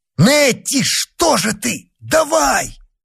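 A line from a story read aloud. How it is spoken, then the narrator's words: Shout. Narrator (Russian): Он крикнул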